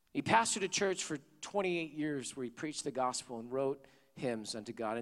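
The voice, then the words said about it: Hoarse voice. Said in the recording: “my hoarse voice”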